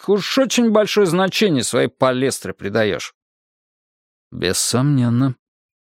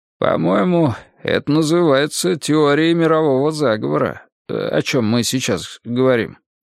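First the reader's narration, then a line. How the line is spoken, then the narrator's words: Uncertain. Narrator (Russian): неуверенно сказал Пересолин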